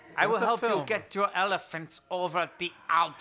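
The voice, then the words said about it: German-accented impression of a director. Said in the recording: “That a Germanic accent? Sort of.”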